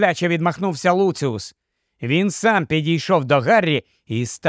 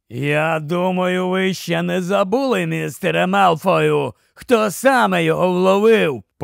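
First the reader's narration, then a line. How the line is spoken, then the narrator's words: Threatening growl. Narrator (Ukrainian): погрозливе гарчання Грейбека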